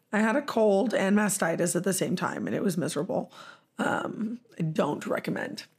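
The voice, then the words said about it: Hoarse, strained voice. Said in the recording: “I was sick. And while I'm not sick anymore, my voice is shot.”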